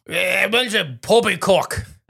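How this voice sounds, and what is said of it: Drunk British accent impression. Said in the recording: “Your drunk British accent. ... I yelled in a drunk British accent ... Not bad.”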